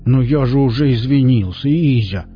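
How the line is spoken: Pleading exclamation. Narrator (Russian): умоляюще воскликнул Виллис

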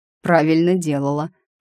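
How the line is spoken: Snorting. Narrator (Russian): хмыкнул он

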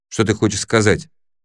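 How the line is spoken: Sharp question. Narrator (Russian): резко спросил Крис

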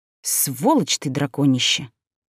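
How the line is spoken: Trembling whisper. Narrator (Russian): Прошептала дрогнувшими губами

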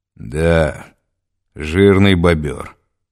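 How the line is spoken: Through gritted teeth. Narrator (Russian): сквозь зубы проговорил

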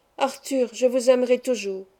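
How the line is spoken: Voice broken by sobs. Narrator (French): dis-je d'une voix entrecoupée par les sanglots

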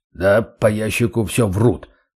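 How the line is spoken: Deep bass voice. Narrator (Russian): пробасил Столяров

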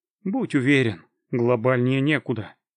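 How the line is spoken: Sigh. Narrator (Russian): вздохнул

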